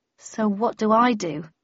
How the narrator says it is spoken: I asked uneasily

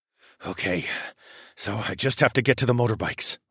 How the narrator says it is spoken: I muttered

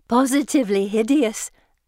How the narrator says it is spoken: Anne says, giggling

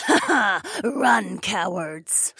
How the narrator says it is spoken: Fila cackled

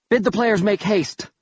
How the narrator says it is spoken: I cried

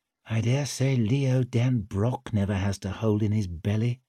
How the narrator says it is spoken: he murmured

